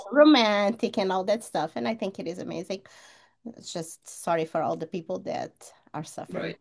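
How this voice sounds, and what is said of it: European accent. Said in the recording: “a fellow European... I'm sure you can tell by her accent.”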